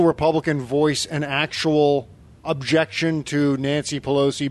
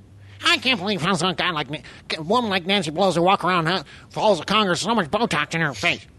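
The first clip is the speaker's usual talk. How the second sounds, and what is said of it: Imitates another person's voice. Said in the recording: “my Mark Levin impression”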